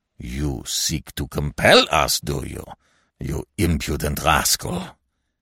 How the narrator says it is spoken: he growled

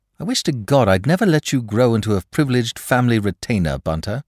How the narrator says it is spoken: said Lord Peter bitterly

